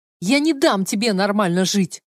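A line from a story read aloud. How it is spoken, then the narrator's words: Hysterical shout. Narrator (Russian): в истерике крикнула Клэр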